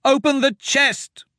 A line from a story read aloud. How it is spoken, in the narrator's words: Myra shouted